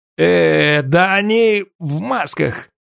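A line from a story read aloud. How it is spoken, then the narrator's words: Grumbling. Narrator (Russian): проворчал Азазела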